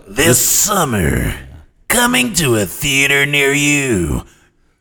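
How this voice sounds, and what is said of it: Movie trailer announcer voice. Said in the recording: “do the movie voice”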